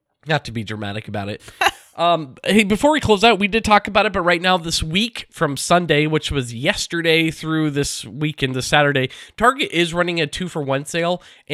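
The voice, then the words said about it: Sick, congested-sounding voice. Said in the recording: “Sorry if my voice was distracting... it's just a cold”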